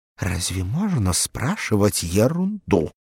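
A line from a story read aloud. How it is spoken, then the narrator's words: Angry whisper. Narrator (Russian): Софья Ильинична сердито шепнула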